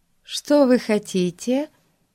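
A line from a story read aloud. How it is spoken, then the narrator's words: Unexpectedly kind question. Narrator (Russian): спросила она неожиданно добрым голосом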